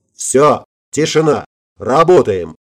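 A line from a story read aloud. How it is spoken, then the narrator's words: Barked. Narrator (Russian): рявкнул Ридли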